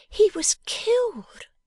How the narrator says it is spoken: gasped Bella

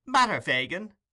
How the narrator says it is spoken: cried Charlie

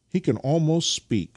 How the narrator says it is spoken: cried Nikita

